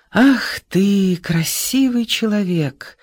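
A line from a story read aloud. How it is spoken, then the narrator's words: Soft smiling voice. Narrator (Russian): улыбнулся мягко Исаев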